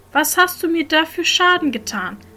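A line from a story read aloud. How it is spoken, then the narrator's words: Calling out. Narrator (German): Er rief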